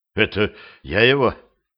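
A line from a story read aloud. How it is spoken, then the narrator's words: Breathless, forced out. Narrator (Russian): переводя дух, наконец смог выдавить из себя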